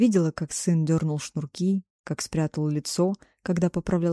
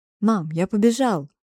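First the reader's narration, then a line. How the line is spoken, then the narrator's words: Shout. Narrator (Russian): крикнул он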